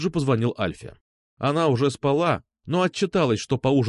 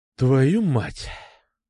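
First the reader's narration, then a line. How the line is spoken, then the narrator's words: Exhaled exclamation. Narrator (Russian): выдохнул я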